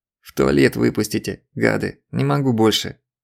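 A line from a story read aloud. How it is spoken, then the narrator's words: Hissing. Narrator (Russian): прошипел он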